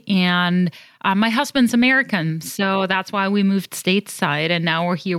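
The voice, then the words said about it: European accent. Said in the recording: “you have this delicious European accent”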